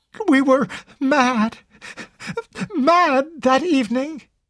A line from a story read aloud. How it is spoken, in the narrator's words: Carol sobbed out brokenly